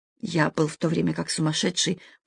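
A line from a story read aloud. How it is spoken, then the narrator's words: Muttered. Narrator (Russian): пробормотал он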